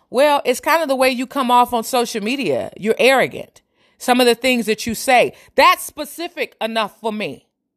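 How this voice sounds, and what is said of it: Yelling, raised loud voice. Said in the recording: “I'm yelling. You know, I'm yelling, but I'm not angry.”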